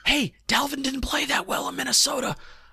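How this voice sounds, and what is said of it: Whispering. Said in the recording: “that's why I'm whispering”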